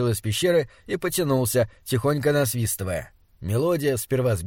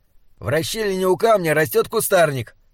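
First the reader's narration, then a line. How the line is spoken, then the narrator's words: Shouted after someone. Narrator (Russian): крикнул ему вслед Слудик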